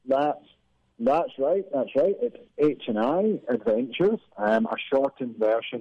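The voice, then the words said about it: Husky Scottish accent. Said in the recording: “husky Scottish accent ... your husky Scottish accent”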